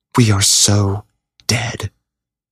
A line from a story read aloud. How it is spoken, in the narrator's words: Megan whispered